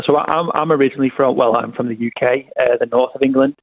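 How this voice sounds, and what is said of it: English accent. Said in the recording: “People can hear an English accent.”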